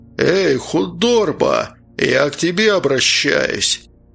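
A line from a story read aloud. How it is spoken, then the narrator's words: Menacing shout. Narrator (Russian): грозно крикнул бородач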